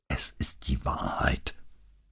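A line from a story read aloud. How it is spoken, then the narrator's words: Passionate, strained whisper. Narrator (German): flüsterte sie mit leidenschaftlich gepresster Stimme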